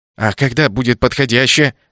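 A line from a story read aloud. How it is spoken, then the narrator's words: Snapping retort. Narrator (Russian): огрызнулся я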